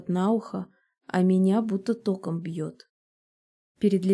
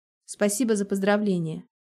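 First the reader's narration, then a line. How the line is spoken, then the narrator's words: Cold, restrained reply. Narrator (Russian): отвечаю я холодно, стараясь держать себя в руках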